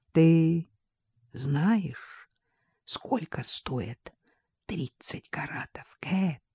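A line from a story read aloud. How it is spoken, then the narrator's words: Whispered question in ear. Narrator (Russian): шепотом на ухо спросил Джек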